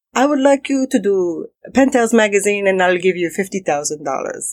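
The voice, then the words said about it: Bad put-on French accent. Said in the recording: “a really bad French accent.”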